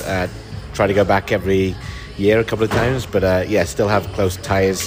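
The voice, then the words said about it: British accent. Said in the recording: “that fantastic accent means he was not from here originally”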